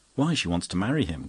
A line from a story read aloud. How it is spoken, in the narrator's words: cried Father Brown, sitting up eagerly